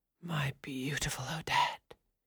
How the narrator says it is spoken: whispered in her ear, still mistaking her for the girl he loved

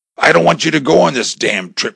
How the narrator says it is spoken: shouted

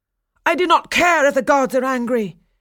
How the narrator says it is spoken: cried Daphnis

